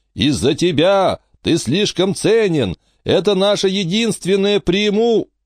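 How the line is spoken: Howl of pain. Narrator (Russian): Виламена взвыла от боли

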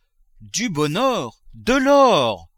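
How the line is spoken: Exclaiming. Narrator (French): s'écria-t-il

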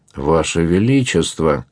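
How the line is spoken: Flustered mutter. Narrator (Russian): пробормотал Дон Луис в смятении

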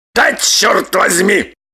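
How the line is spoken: Loud bark. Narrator (Russian): гаркнул Роман

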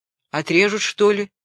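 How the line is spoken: Angry question. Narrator (Russian): спросил капитан зло

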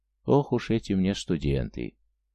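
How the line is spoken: Calm. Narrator (Russian): Она спокойно сказала

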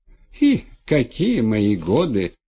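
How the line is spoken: Muffled giggle. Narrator (Russian): хихикнула головешиха, прикрыв рот

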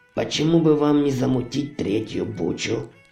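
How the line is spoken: Plain. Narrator (Russian): спросил Ури

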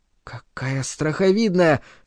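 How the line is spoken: Children whispering. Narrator (Russian): шептались дети

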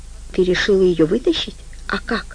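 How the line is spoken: Whisper. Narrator (Russian): он прошептал

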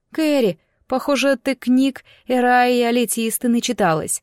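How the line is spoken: Laughing exclamation. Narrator (Russian): воскликнула я, смеясь

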